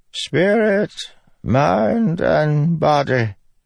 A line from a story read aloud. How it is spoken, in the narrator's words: the wizened Ardent said, her voice echoing in the stone catacomb